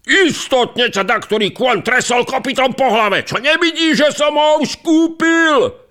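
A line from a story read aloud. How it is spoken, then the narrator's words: Shouted. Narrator (Slovak): zakričal druhý boháč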